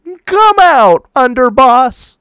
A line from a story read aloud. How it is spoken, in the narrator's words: shouted bravely